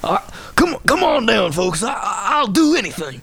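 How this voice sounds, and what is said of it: Michael Keaton's Beetlejuice cowboy salesman voice. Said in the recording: “he just has the greatest accent ... I do a pretty good Michael Keaton as that version in Beetlejuice, the cowboy car salesman version of Beetlejuice”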